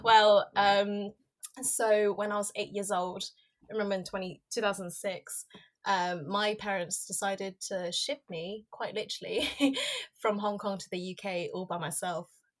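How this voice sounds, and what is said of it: Posh British accent. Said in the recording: “she's from Hong Kong, but she sounds really posh.”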